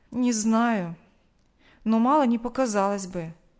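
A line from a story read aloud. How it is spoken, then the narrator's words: Sighing. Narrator (Russian): вновь вздохнул Павел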